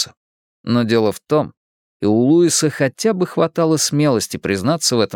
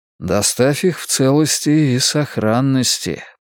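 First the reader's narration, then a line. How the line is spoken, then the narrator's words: Mutter. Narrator (Russian): пробормотал Луис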